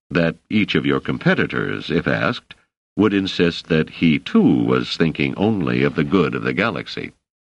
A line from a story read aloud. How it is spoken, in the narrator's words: said Selden dryly